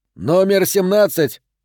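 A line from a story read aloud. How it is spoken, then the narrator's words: Near shout over gunfire. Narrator (Russian): почти прокричал он, перекрывая хлопки выстрелов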